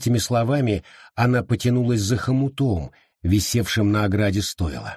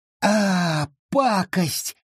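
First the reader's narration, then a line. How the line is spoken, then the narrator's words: Hiss through clenched teeth. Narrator (Russian): прошипела она сквозь крепко сжатые зубы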